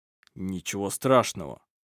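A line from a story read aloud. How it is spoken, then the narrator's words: Muttered. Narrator (Russian): пробормотал Сармик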